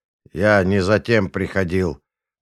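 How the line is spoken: Grim declaration. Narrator (Russian): мрачно заявил в ответ Махмуд

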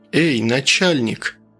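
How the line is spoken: Surprisingly calm, drowning man. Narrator (Russian): На удивление спокойно для тонущего человека обратился он к Рощину

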